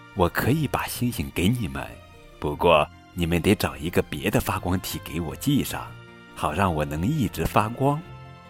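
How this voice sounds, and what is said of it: Soft quiet voice. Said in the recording (Chinese): “月亮小声说”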